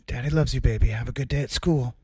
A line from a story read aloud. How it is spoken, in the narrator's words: whisper in her ear